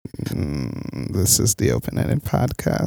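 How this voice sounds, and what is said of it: Vocal fry. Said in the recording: “Got that vocal fry going on. ... Got that vocal fry. ... your voice on fry.”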